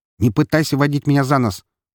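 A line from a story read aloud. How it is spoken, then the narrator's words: Sharp interruption. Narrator (Russian): он резко прервал меня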